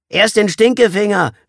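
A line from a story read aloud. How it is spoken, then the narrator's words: Boy calling out. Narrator (German): rief der picklige Junge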